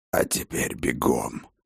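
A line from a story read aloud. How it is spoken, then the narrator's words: Old man's hoarse rasp. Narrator (Russian): прохрипел старый Хрофт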